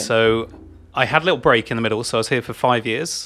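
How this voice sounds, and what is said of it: English accent. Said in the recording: “So I'm English. ... You held strong to the accent.”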